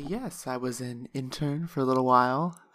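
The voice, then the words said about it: Polished public-radio announcer voice. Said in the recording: “that's a good NPR voice”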